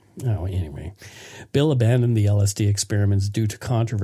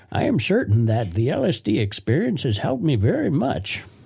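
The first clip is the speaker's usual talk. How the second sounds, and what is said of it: Old man voice. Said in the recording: “I'll just be an old man ... A great impression.”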